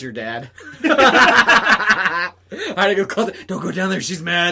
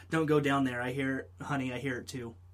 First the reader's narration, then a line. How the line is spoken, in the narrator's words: a whisper from the closet saying